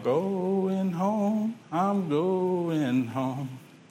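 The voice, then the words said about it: Sings in an old man's voice. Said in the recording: “in that old man voice, ... old men have a particular way of singing because their voice has changed a bit”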